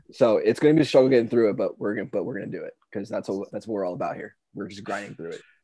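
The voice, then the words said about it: Hoarse, scratchy voice. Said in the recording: “my voice is kind of fucked ... Just lost my voice ... Just got a scratchy throat ... You sound awful, dude ... you sound like so bad”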